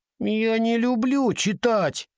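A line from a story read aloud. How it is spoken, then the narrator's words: Whiny drawl. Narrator (Russian): ноющим голосом затянула Уинни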